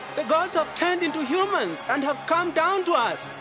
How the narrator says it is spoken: they yelled out in the language of Lycaonia

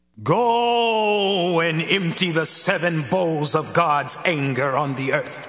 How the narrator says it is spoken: I heard a voice shout to the seven angels

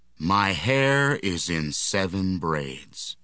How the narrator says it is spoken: Samson replied

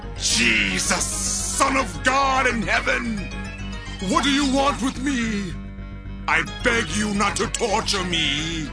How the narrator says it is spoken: shouted

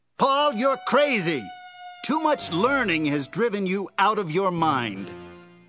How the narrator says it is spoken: shouted

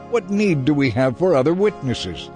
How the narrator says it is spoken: They shouted

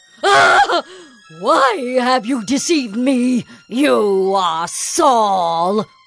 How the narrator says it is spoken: she cried out with a loud voice, and the woman said to Saul

